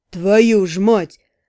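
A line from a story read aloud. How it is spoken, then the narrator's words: Groaning. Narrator (Russian): простонал демиург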